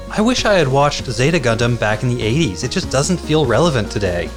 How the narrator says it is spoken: shouting

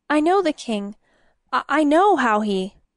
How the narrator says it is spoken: Uther stammered

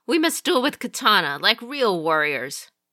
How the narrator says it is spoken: the prince exclaimed suddenly

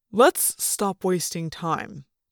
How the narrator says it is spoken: said

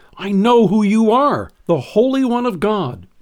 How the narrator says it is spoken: Without hesitation, he cried out

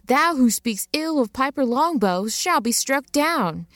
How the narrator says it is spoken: I dramatically shouted

